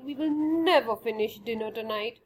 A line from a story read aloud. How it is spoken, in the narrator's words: grumbling